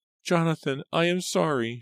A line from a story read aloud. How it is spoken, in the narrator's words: she cried, her voice shrill with fear